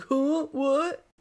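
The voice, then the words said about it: Imitates another person's voice. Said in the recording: “Great impersonation of me. ... Yeah. Spot on.”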